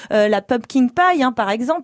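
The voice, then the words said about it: Very French-sounding English accent. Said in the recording (French): “votre accent anglais ... il est très français”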